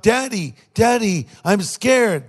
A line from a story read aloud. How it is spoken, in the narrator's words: he cried out